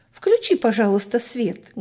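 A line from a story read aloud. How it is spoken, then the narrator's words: Plain, mother. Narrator (Russian): говорит тебе мама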